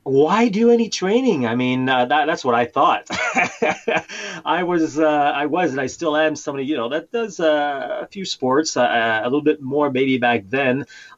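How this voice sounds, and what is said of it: Appealing foreign-accented English. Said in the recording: “with my accent ... All the ladies listening just melted when they heard your accent ... Mine just sounds awful next to yours.”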